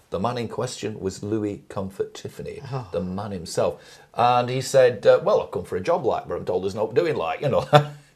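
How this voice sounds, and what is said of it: Lancashire English accent. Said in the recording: “being a good Lancashire man ... You can tell I went to the Fred Dibner School of Elocution, can't you? Compulsory where I grew up, this accent.”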